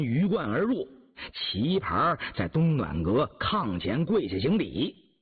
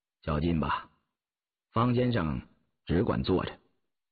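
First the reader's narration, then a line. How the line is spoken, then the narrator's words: Cool, flat tone. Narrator (Chinese): 敛了笑容，淡淡的说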